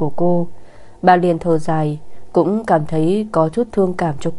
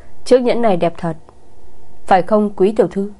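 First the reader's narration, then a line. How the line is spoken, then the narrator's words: Smug, sneering. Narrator (Vietnamese): cười khẩy đắc ý nói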